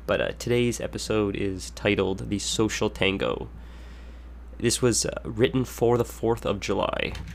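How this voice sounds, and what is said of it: Nasal, congested sick voice. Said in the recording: “I've been sick as a dog all week long ... I don't know if you can tell in my voice, I don't know if this is intolerable to listen to, but I'm still quite nasally”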